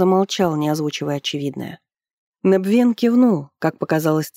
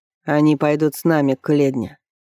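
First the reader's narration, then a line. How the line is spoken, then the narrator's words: Plain. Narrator (Russian): ответил Ренеф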